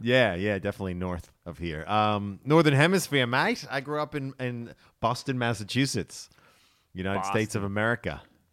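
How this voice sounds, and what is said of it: American Boston accent. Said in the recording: “I can hear from your voice there. You're not from around here, are you, mate? ... you haven't changed that silly accent at all.”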